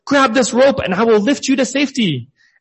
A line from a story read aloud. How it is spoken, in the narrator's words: the pilot shouted